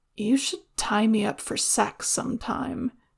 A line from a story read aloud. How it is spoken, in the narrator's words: Dao Yunlan opines sleepily